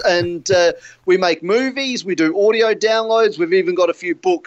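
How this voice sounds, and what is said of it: Australian accent. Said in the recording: “as people can probably tell from my accent, I'm from Australia”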